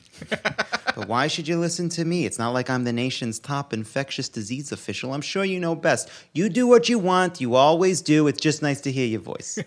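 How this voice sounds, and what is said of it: Jewish mother character voice. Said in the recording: “here's my Jewish mom voice.”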